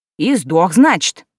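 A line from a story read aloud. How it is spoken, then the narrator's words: Little man, clarifying. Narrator (Russian): уточнил мужичок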